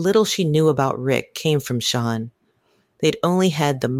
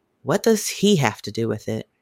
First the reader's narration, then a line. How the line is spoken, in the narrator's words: He sighed